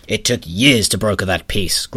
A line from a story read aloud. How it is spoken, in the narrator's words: growled a stern figure